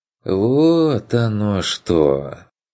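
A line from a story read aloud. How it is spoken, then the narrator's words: Drawn out. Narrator (Russian): протянул Бруно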